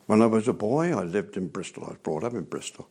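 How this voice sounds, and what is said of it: Bristolian English accent. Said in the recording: “I'm a Bristolian, you might tell from my accent.”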